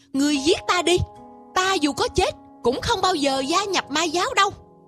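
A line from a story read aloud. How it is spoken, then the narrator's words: Loud exasperated shout. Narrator (Vietnamese): Trương Tiểu Phàm cuối cùng không chịu được nữa, trỏ tay về phía Quỷ Vương hét lớn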